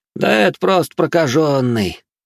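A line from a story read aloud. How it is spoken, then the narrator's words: Relieved exhale. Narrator (Russian): с облегчением выдохнул Вальс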